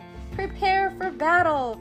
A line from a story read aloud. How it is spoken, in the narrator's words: Corinne shouted